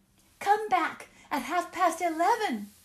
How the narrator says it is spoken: they cried

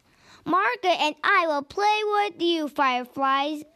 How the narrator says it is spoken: Daniel giggled

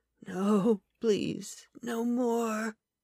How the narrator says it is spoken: Kyle muttered

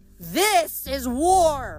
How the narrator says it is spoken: Octavian yelled

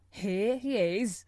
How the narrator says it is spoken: chuckled the old man

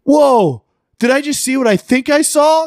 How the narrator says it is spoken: somebody from the other room yelling

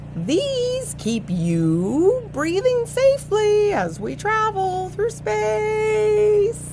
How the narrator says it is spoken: Taylor hollered

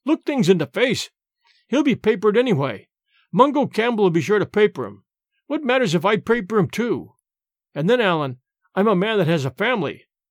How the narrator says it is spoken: cried James

